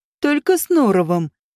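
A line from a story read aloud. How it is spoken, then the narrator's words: Snide warning vampire. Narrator (Russian): ехидно предупредил вампир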